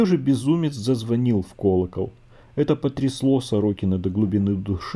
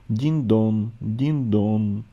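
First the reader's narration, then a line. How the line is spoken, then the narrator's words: Slow mournful funeral chime. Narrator (Russian): медленно и печально, как похоронный звон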